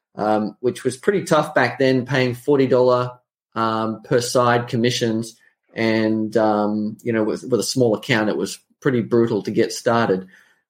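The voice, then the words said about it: Australian accent. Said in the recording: “So I'm an Australian. You can probably tell from the accent.”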